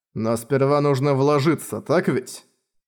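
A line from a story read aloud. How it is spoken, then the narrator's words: Cold question. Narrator (Russian): холодно спросил Хал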